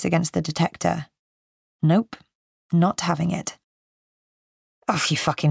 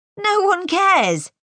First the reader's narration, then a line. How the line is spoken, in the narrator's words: he yells